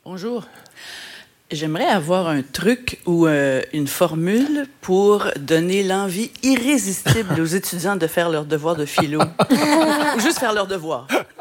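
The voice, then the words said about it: Quebec French accent. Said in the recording (French): “Petit accent québécois, peut-être.”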